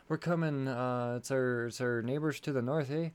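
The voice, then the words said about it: Poor put-on Canadian accent. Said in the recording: “That sounded more like East LA, sorry. ... That was terrible Canadian accent.”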